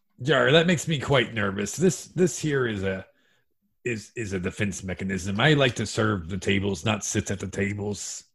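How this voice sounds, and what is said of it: Fake pirate accent. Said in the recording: “why is he talking like a pirate”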